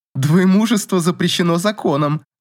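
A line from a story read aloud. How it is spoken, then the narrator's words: Laughing. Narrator (Russian): засмеялась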